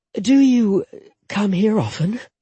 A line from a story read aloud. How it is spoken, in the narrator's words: she asked breathlessly